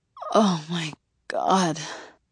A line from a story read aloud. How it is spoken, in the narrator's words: I moan